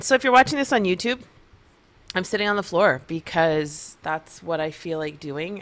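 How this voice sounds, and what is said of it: Crackly, slightly throaty voice. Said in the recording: “my voice is kind of crackly because I've had some of my bulletproof coffee, and that tends to make me sometimes a little throaty”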